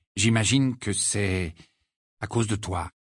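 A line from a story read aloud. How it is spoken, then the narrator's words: Calm, composed. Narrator (French): dit-il d'une voix posée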